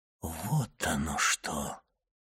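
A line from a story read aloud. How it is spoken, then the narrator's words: Quiet astonished exclamation. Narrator (Russian): негромко воскликнул Монте-Кристо, изумленно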